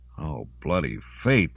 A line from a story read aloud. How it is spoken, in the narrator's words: Lawrence groaned